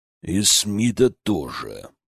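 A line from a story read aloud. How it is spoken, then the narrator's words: Growl. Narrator (Russian): прорычал Магнус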